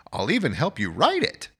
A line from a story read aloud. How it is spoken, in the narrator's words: As I politely demurred, he chirped